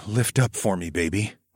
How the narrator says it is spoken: I moaned

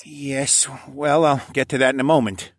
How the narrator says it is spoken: Sir Vincent sighed

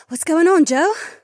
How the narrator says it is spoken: Sienna panted

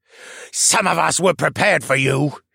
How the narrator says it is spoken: he hissed

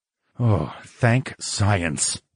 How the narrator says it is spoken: grunted

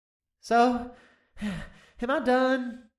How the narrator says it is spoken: the little dragon practically begged

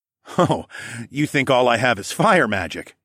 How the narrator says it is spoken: I chuckled

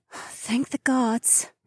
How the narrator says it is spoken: Nokomis breathed

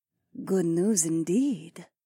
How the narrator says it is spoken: Zoe purred

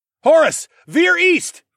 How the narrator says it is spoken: shouted

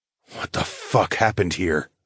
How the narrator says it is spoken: muttered

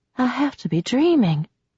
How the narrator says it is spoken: whispered

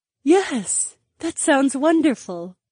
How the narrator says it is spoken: the brunette breathed

